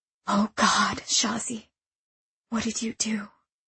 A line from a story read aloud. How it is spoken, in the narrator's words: Rahim whispered